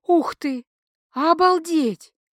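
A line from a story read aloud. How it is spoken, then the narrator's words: Breathless delighted exhale. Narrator (Russian): восторженно выдохнула я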